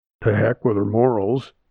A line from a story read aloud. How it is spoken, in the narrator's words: the waddy snorted